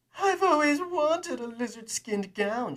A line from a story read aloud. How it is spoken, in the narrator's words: she cooed